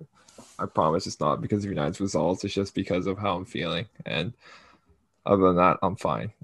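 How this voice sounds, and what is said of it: Congested, low-energy voice from cold. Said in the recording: “I have a cold. So if I sound unenthusiastic”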